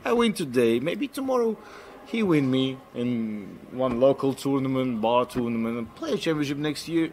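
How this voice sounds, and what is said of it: Russian accent. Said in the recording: “I just love the Russian accent”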